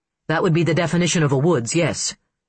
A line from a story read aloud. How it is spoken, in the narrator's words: Mitch said dryly